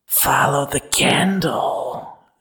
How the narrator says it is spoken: she whispers

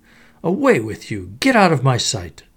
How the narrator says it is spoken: exclaiming

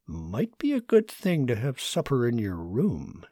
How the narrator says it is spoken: said quietly

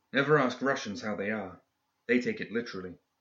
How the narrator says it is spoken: she whispered to Mr

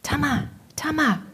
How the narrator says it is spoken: whispered Marnie

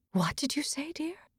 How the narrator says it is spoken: breathed

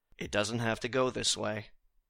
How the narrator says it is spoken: to just very calmly say

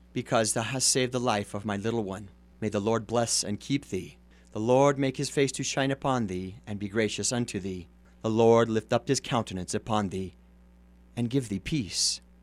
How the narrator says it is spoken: the voice of the woman, weeping for joy in the shadows behind him, said very gently

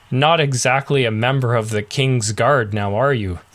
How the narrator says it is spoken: Garther laughed out loud

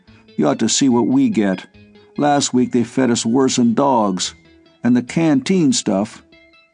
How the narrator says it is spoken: said Wallace gloomily

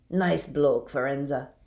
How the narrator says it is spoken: he said gruffly

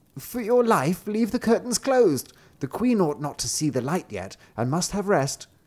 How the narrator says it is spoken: the old woman quickly called out

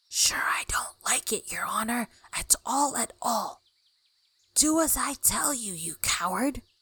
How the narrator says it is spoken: whispers

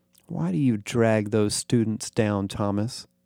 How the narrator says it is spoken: Clanton sighed

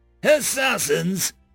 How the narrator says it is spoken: the High Bishop near screeched

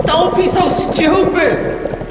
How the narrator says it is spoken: He shouted

